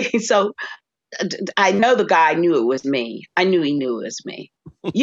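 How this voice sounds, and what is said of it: Usual voice. Nothing is said of it.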